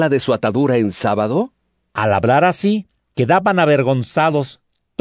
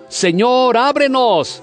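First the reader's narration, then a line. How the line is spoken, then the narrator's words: Shouting. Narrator (Spanish): gritando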